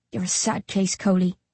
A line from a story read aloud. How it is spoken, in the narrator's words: I whisper